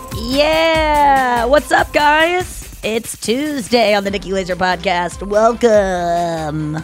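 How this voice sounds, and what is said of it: Fake radio announcer voice. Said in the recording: “doing the fake radio voice.”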